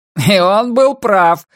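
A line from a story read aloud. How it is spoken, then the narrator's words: Shouting out. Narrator (Russian): выкрикнул его друг из оперы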